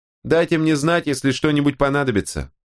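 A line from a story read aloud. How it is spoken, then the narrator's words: Woman calling out after. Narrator (Russian): крикнула ему вслед женщина в набедренной повязке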